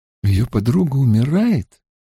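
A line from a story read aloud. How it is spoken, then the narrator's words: Timid, meek request. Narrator (Russian): Авиенда говорит так робко, будто просит одолжить ей миску ячменной муки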